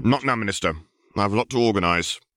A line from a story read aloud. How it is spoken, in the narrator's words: Percy snapped